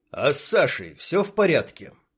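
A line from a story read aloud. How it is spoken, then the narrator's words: Honey badger, ingratiating question. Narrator (Russian): вкрадчиво спросил медоед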